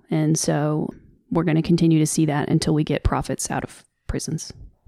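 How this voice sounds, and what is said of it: Strong Southern accent. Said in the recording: “why did your Southern accent triple down in this episode? ... I get real country.”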